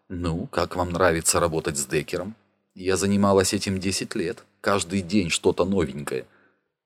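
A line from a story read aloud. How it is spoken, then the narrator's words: Quiet. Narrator (Russian): негромко сказала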